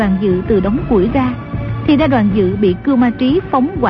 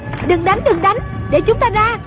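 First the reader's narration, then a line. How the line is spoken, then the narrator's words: Shouting. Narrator (Vietnamese): Trung Linh la lên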